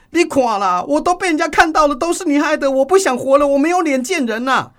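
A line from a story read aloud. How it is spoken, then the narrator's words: Young woman crying, shouting. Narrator (Chinese): 年轻女子突然哭起来了，嘴里大喊说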